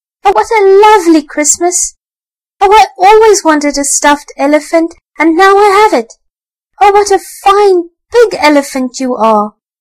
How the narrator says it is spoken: the little boy shouted and clapped his hands for joy and cried

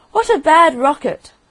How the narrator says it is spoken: he cried

